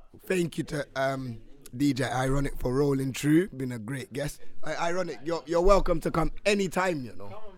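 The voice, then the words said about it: Strained, partly lost voice. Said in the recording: “I do apologize for my voice this week, but it'll be back next week”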